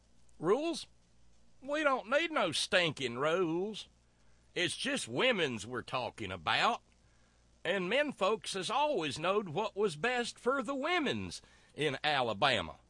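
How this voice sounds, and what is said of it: Exaggerated cornpone Southern accent. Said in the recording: “the stupid cornpone accent.”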